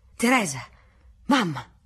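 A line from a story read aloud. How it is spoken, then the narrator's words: Agitated exclaiming voice. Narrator (Italian): una voce alterata esclamò dietro la carrozza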